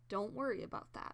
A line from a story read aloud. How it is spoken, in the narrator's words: Firestar says firmly